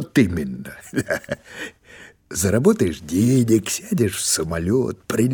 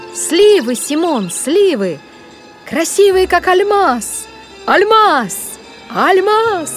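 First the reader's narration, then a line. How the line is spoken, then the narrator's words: Shouting, oddly soft pronunciation. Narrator (Russian): кричала Грета, причем как-то странно произнося это слово с мягким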